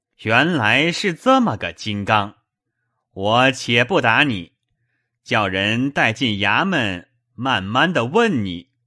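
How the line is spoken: Laughing. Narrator (Chinese): 雨村在轿内笑道

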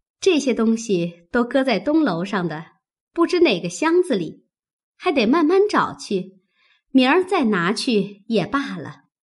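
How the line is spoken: Smiling agreement. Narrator (Chinese): 鸳鸯答应着笑道

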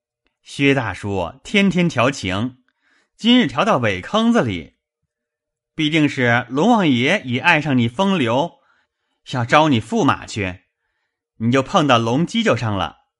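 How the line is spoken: Laughing. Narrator (Chinese): 贾蓉笑道

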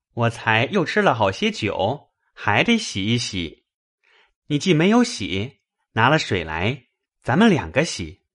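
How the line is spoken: Laughing. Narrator (Chinese): 宝玉笑道

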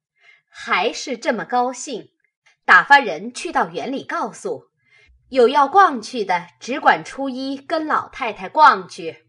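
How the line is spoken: Laughing. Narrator (Chinese): 笑道

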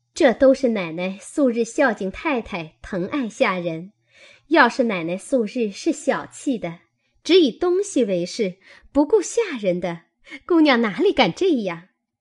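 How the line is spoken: Group laughing. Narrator (Chinese): 众人笑道

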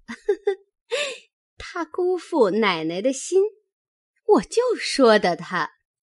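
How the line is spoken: Laughing. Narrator (Chinese): 宝蟾也笑道

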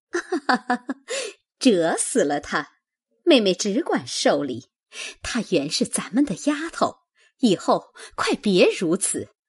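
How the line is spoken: Hurried, laughing. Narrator (Chinese): 凤姐忙也笑说

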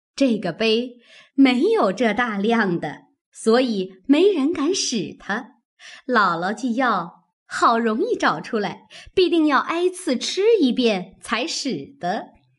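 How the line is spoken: Laughing. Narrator (Chinese): 凤姐儿笑道

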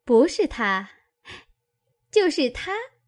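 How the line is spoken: Laughing. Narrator (Chinese): 琥珀又笑道

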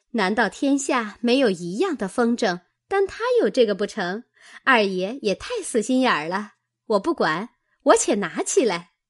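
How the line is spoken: Laughing. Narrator (Chinese): 紫鹃笑道

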